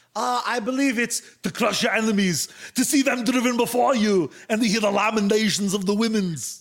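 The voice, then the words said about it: Bad Arnold Schwarzenegger impression. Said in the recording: “terrible, terrible Arnold impersonation... Arnold Schwarzenegger's Conan”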